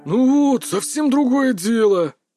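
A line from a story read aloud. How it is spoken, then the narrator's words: Approving grumble. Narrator (Russian): одобрительно проворчал Кадзимура-сан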